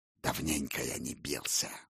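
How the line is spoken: Wolf's growl. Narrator (Russian): рыкнул волк

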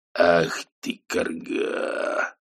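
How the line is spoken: Muttered. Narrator (Russian): пробормотал Шэдуэлл

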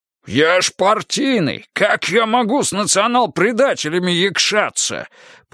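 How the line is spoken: Indignant shout. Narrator (Russian): По инерции еще прокричал с негодованием Дмитрий Федорович

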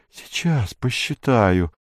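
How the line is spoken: Muttering. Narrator (Russian): бормотал он

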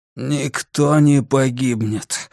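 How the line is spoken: Sudden hoarse tired voice. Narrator (Russian): внезапно послышался хриплый усталый голос Грюнвальда

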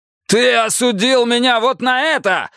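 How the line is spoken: Shouted. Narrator (Russian): выкрикнул Рокки

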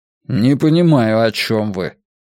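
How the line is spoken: Angry objection. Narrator (Russian): сердито возразил доктор

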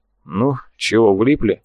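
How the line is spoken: Sighing. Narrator (Russian): вздохнул тот

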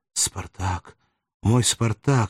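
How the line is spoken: Exclamation. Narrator (Russian): воскликнула она

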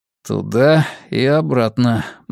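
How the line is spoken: Gloomy mutter. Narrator (Russian): мрачно пробормотал Натрий

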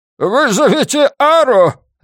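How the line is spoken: Barked reply. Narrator (Russian): рявкнул в ответ Тельсис

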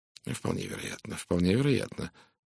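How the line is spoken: Worried mutter. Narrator (Russian): озабоченным тоном пробормотал Пуаро

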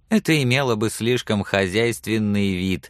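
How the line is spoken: Laughing. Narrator (Russian): засмеялась

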